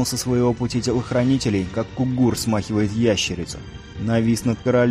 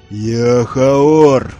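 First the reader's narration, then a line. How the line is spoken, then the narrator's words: Sudden thunderous roar. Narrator (Russian): вдруг взревел Нил с такой силой, что листья на деревьях затрепетали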